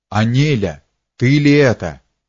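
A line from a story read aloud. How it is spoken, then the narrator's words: Amazed exclamation. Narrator (Russian): воскликнул изумленный Петр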